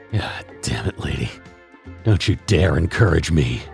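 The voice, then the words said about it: Bitter muttering. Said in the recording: “I muttered in a bitter voice”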